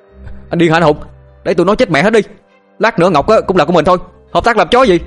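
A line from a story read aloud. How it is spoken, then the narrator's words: Angry shout. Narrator (Vietnamese): Sinh có vẻ giận, nó hét lên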